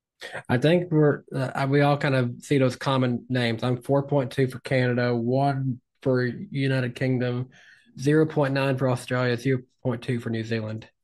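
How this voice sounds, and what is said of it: Tennessee Southern American accent. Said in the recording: “my Tennessee accent”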